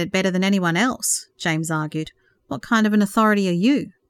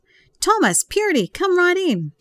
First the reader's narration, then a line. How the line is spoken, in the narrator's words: exclaimed